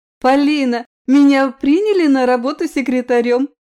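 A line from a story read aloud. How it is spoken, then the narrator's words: Joyful. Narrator (Russian): радостно сообщила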